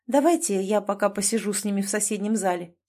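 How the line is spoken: Quiet. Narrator (Russian): сказала она негромко

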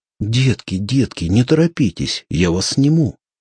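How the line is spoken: Fat man's exclamation. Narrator (Russian): Толстяк воскликнул

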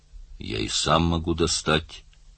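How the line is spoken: Flat colorless voice. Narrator (Russian): ответил Каф бесцветным голосом

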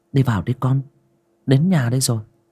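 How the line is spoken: Gentle speech. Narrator (Vietnamese): Bà Báu nhẹ nhàng

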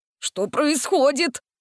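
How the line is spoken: Frightened howl. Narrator (Russian): испуганно взвыл он

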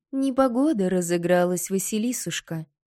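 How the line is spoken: Soft, gentle stepmother. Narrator (Russian): мягко продолжила мачеха

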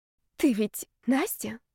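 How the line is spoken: Quiet whisper. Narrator (Russian): тихо шепнул Ярослав

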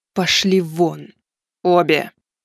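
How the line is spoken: Through gritted teeth. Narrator (Russian): процедила сквозь зубы настоятельница

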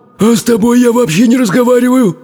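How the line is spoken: Grumbling fiery creature. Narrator (Russian): проворчало невероятное огненное создание

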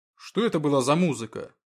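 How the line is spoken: Heavy breathing, near growl. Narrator (Russian): Он дышал тяжело, почти рычал

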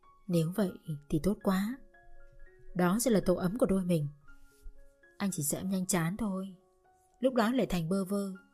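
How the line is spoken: Tender murmur. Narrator (Vietnamese): anh thủ thỉ

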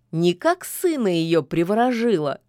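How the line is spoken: Laughing. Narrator (Russian): засмеялся Кощей

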